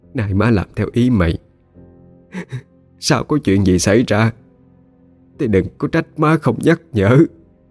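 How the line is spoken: Sniffling, tearful. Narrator (Vietnamese): Rồi bà sụt sùi mà nói

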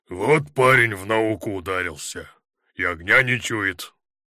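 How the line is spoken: Deep bass, elderly man. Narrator (Russian): Пожилой красноармеец пробасил

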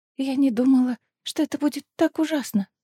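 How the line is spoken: Whispering. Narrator (Russian): шептала Венга

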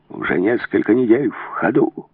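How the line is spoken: Hoarse rasp. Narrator (Russian): прохрипел Блики

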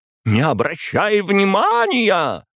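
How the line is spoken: Exclaiming. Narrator (Russian): воскликнула Светлана

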